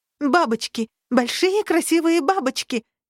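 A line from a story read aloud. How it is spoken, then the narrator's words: Shout. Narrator (Russian): крикнула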